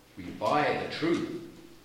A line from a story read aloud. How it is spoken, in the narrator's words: they looked gravely on him and answered